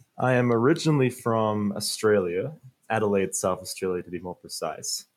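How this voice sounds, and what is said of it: Mixed American-Australian accent. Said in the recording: “it's created this American-Australian accent. So it's a hard one to figure out”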